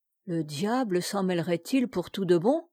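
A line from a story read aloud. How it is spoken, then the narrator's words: Anxious grumbling. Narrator (French): grommela-t-il avec inquiétude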